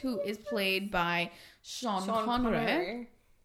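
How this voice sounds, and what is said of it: Sean Connery impression accent. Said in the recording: “I don't know why I'm doing that stupid accent, but Sean Connery”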